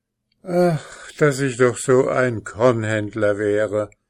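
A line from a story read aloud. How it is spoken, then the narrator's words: Farmer sighing after him. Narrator (German): seufzte der Bauer hinter ihm drein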